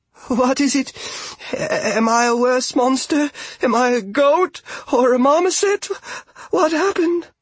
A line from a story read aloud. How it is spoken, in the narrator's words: Argabella wailed